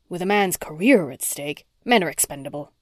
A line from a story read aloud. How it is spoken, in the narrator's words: Porter snapped